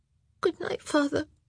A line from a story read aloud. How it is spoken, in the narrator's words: Amanda, and she mumbled a barely articulate